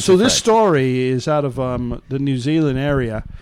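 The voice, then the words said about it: Put-on accent. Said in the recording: “That's your accent, mate.”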